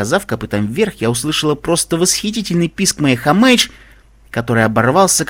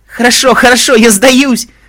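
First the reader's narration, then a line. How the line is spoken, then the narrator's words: Shouted. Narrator (Russian): закричала Хамейдж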